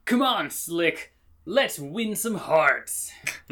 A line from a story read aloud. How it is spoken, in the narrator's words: Buck absolutely jacks in as he shouts